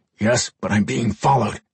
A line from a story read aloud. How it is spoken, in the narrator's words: Gabriel muttered